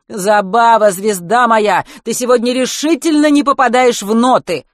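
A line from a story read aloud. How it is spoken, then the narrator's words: Shouting. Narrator (Russian): кричал Олег Денисович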